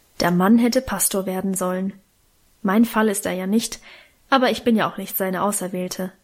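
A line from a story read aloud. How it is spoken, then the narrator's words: Grumbling mutter. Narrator (German): brummte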